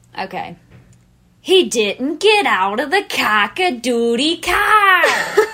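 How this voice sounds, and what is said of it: Put-on accent. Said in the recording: “say with the accent... That I do very poorly... You do it very well.”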